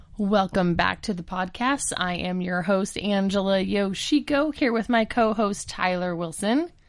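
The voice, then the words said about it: Husky, congested voice. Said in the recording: “the sexy voice is still me ... I am fighting a sweet back-to-school cold”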